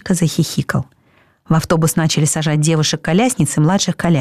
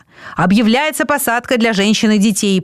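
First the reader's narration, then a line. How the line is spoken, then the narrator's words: Shouting to crowd. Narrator (Russian): прокричал он в толпу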